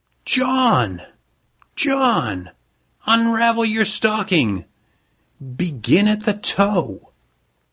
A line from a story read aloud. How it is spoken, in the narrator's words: she shouted to her husband